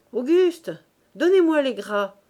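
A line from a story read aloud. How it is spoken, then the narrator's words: Shouted. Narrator (French): cria Quenu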